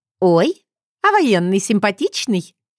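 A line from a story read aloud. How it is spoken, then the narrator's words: Giggling. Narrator (Russian): хихикнула Лидка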